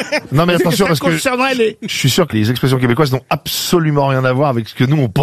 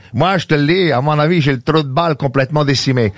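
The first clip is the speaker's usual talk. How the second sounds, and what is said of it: Exaggerated Québécois accent. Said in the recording (French): “l'accent exacerbé”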